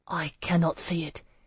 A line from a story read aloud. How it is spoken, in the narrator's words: Hyacinth whispered